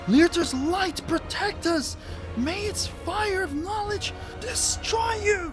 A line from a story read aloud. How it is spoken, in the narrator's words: as if it was a praying motion, he then screams